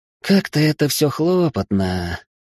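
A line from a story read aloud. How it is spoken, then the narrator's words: Weary groan. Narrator (Russian): простонала девушка, прикинув объем работы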